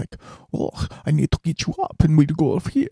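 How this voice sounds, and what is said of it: Put-on Russian or Ukrainian accent. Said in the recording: “She was like Russian or Ukrainian or something like that ... I'm not trying to do accents to make fun of people. I'm doing accents to be funny.”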